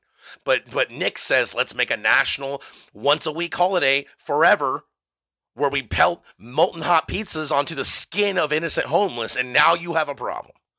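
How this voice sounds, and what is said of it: Emotional screaming rant. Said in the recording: “I don't know why I'm getting emotional. I don't know why I'm screaming at you.”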